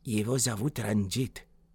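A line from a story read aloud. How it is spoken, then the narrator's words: Whisper. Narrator (Russian): он понизив голос до шепота, сообщил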